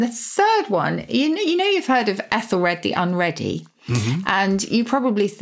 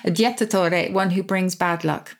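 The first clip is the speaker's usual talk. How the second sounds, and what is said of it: Bad put-on Italian accent. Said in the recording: “I'm saying it with a terrible Italian accent ... If I had a better accent”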